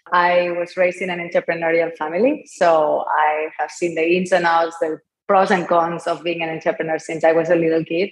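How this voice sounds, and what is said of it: Spanish accent from Barcelona. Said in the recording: “as you can tell by my accent, I'm not from here, I'm from Barcelona”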